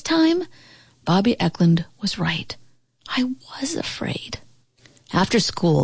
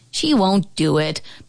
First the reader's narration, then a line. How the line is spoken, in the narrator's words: Bobby Eklund finally scoffed